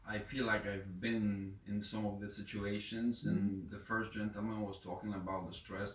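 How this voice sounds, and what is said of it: Non-native English accent. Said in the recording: “pardon my accent”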